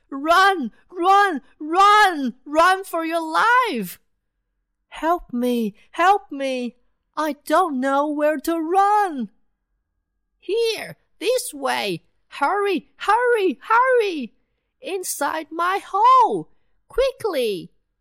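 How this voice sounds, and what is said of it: Panicked, breathless shouting. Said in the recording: “Both of them are out of breath”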